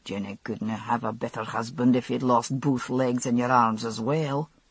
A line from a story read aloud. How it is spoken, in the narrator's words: Jamie said gruffly